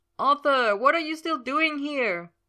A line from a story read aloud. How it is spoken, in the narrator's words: Merlin asked, practically yelling over the wind